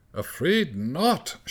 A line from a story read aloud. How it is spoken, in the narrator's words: shouted the conductor stiffly